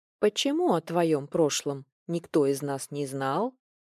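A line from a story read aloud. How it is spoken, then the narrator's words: Calm husky old woman's question. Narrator (Russian): спокойным хрипловатым голосом спросила старушка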